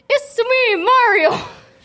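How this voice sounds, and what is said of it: Mario character voice impression. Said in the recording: “give us your best Mario impression”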